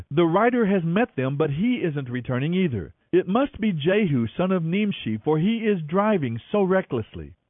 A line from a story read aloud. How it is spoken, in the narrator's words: The watchman exclaimed